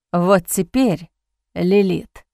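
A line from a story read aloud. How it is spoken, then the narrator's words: Hoarse rasp. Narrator (Russian): прохрипел он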